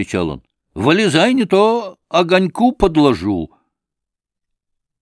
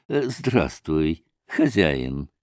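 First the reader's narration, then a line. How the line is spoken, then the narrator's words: Tender voice. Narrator (Russian): сказал он ласковым голосом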